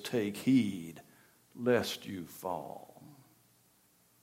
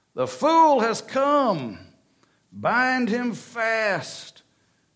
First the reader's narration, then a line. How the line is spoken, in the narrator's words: cried the wicked witch